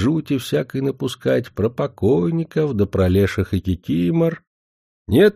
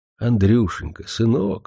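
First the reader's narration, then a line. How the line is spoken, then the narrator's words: Tender, affectionate. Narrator (Russian): говорит она так ласково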